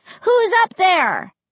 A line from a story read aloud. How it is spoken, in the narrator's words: cupped my hands over my mouth, and shouted up to the second floor